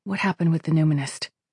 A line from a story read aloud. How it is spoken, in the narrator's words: she asked